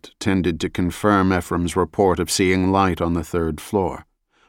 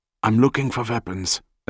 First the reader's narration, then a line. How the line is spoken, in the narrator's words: Ephraim whispered